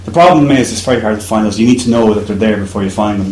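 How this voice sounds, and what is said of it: Irish accent. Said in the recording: “I've an Irish accent.”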